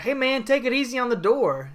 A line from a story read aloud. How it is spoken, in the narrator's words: he yells out to Flair